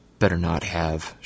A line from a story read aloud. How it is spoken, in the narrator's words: she muttered under her breath